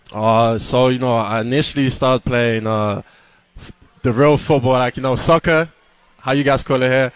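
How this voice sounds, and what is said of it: British accent. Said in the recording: “hear your accent, not accustomed to hearing a British accent.”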